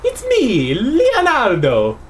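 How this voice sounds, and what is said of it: Italian accent like Super Mario. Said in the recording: “Italian accent ... he's going to sound a lot like Super Mario”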